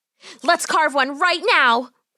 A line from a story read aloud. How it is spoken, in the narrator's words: Polly cried out